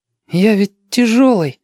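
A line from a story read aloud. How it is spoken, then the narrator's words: Hesitant arguing. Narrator (Russian): неуверенно заспорил тот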